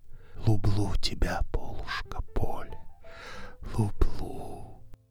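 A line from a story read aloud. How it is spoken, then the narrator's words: Whisper. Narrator (Russian): он шептал ей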